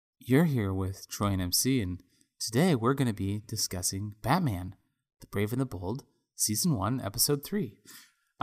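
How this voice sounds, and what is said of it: Mock NPR radio voice. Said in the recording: “You wanted energy, so you went with NPR voice? ... I don't know why I'm making fun of NPR voice.”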